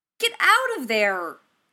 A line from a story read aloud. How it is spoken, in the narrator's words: yelled